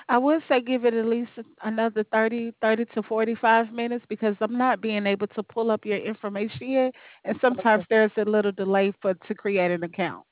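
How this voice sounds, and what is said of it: Alabama regional accent. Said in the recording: “I love your accent. ... I'm in Alabama.”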